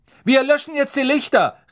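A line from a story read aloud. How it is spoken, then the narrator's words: Calling out. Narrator (German): rief Percy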